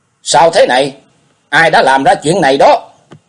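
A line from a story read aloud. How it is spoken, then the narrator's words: Loud, shocked and frightened question. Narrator (Vietnamese): Hoàng Thái Tôn vừa kinh hãi lại vừa sợ, lớn tiếng hỏi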